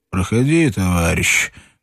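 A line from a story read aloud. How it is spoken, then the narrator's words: Lazy, distinct voice. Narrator (Russian): ответил лениво отчетливый голос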